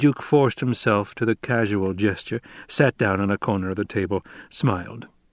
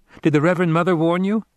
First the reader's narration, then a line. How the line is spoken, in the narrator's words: Paul blurted